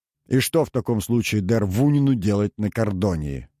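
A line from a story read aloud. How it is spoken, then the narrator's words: Angry smirk. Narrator (Russian): Лилиан зло усмехнулась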